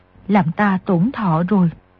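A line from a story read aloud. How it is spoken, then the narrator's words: Soft woman's voice. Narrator (Vietnamese): Người đẹp kia khẽ nói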